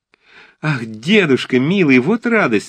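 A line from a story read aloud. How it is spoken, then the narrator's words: Exclaimed. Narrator (Russian): воскликнула Анна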